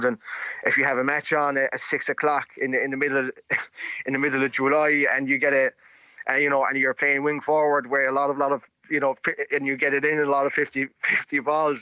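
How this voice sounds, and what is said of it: Irish accent mixing regional features. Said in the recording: “his amazing All-Ireland accent”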